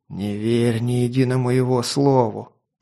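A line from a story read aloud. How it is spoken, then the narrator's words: Hoarse wheeze. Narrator (Russian): прохрипел Тарин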